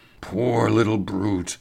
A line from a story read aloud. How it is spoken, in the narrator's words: he murmured